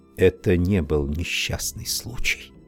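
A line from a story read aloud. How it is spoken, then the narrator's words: Whisper. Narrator (Russian): шепнула Констанция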